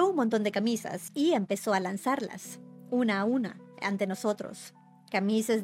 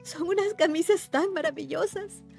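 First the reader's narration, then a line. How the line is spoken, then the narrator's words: Muffled sobbing. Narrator (Spanish): sollozó, y los pliegues, la tela, le apagaban la voz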